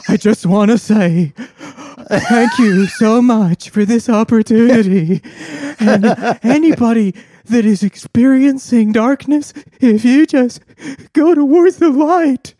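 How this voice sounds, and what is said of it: Brendan Fraser impression, weeping. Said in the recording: “That's a good Brendan Fraser impression.”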